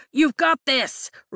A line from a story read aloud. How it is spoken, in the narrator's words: Riddick shouts